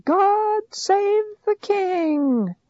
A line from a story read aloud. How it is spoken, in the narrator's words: the people all shouted